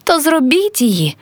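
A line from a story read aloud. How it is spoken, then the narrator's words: Anguished girl's cry. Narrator (Ukrainian): тоскно скрикнула дівчина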